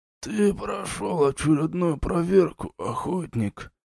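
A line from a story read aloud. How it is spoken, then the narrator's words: Toothless mumble from corner. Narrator (Russian): прошамкал из угла темный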